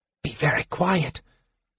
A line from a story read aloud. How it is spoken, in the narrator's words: Marita whispered